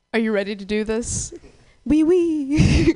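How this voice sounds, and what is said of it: Put-on French accent. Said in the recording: “In a French accent.”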